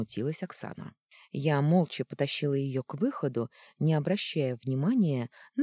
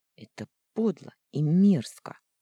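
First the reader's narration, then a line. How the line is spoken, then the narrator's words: Through gritted teeth. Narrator (Russian): процедила я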